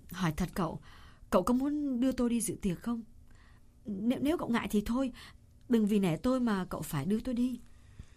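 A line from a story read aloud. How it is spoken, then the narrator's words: Hesitant. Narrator (Vietnamese): Cô ngập ngừng một chút rồi nói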